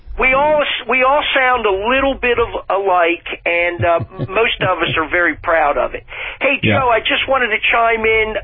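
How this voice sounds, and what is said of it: New Jersey accent. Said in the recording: “with your accent, are you sure you're not calling from New Jersey?”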